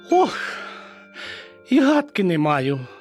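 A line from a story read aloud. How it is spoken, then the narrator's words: Mouse's sorrowful sigh. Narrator (Ukrainian): скрушно зітхнула мишка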